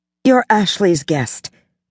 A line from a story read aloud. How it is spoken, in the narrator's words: Pippa said firmly